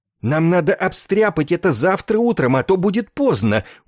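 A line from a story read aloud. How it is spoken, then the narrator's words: Pleading exclamation. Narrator (Russian): умоляюще воскликнул Добз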